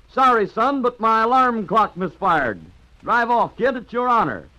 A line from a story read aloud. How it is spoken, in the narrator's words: grinning cheerfully, said to the Prince of Wales